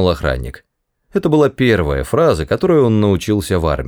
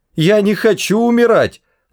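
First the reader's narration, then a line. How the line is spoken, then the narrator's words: Desperate scream. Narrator (Russian): закричал Артур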